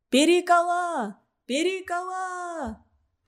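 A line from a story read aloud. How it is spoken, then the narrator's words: Ecstatic shouting. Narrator (Russian): кричали они в каком-то упоении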